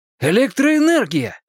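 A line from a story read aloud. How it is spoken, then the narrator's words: Triumphant exclamation. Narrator (Russian): воскликнул с видом человека, только что сделавшего великое открытие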